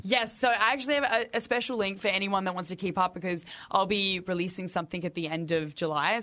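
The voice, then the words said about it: Australian accent. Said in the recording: “I'm from Australia. ... Oh, I like your accent.”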